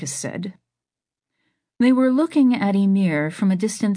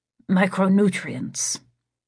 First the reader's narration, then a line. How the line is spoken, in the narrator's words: Marcus said